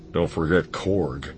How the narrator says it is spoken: Han muttered

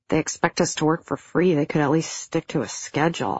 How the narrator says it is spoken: I grumbled

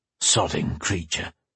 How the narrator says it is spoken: he muttered

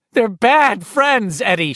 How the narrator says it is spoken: she cried in a near frenzy

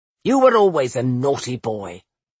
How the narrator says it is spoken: she grumbled

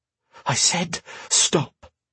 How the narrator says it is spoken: she breathed

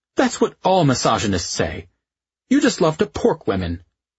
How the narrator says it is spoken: she snorted and said

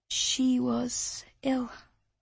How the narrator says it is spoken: she said at last, her voice almost lost to the wind

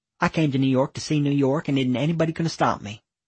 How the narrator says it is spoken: muttering

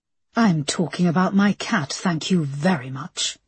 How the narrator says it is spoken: Linda snapped back

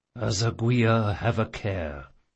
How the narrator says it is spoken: he mumbled

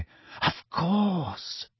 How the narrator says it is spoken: she breathed

